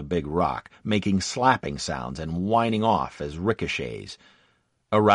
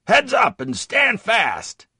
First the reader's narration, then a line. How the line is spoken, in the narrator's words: Sergeant Howard yelled